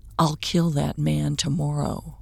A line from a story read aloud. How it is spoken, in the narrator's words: Owen whispered